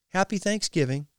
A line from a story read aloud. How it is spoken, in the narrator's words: she said gaily